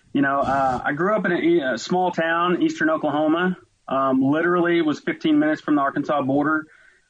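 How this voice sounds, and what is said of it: Oklahoma country twang. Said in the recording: “forgive me for all the twang that's getting ready to come out, but I'm going to show you exactly where I'm from”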